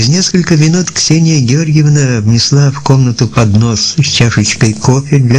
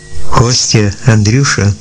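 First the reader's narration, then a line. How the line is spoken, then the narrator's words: Hollow, muffled voice. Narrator (Russian): начала Ксения Георгиевна глухим голосом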